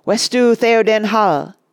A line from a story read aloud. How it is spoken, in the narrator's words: cried Éomer